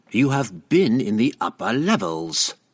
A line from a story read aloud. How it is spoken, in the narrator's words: Triel snarled